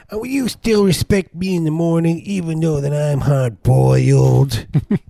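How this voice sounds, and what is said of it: Imitates another person's voice. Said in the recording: “my impersonation of, what's her name? Desperate Living. ... The egg lady.”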